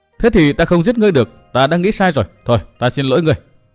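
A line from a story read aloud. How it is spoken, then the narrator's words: Hasty loud laugh, youth. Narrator (Vietnamese): Thiếu niên vội cười lớn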